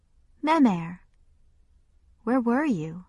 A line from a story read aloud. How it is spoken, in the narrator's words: She said gently